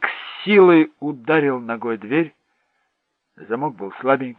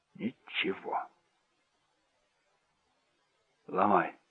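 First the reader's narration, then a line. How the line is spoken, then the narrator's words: Strained, choked voice. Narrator (Russian): сказала Венди сдавленным голосом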